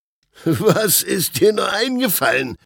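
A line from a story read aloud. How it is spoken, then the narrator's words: Officials laughing. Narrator (German): lachten die Beamten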